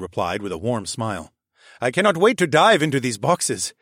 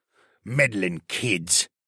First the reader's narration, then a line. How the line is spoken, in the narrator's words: Baxter grumbled